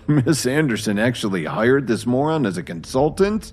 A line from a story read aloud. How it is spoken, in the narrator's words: One of them jeered